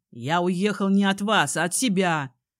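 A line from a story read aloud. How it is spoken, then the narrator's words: Growl. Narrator (Russian): прорычал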